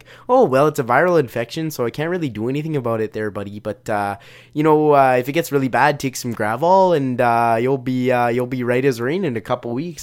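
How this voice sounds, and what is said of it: Exaggerated Canadian accent. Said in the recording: “that sounds like a very offensive Canadian accent”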